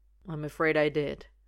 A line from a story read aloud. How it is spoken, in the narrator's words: Roy mumbles